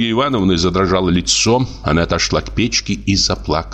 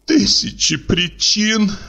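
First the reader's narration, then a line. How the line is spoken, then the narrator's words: Sobbing. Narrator (Russian): всхлипнула Ольга Ивановна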